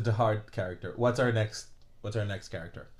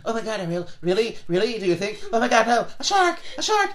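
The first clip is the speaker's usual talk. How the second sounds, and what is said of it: Cartoon character voice of Flounder. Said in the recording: “I think that's a great impression”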